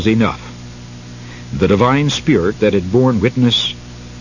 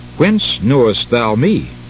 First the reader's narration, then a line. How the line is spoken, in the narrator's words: In surprise, Nathanael exclaimed